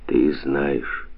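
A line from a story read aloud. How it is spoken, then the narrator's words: Muffled reply. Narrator (Russian): глухо отвечал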